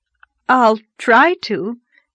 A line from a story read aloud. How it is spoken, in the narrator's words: gasped Anne, choking back a wild desire to laugh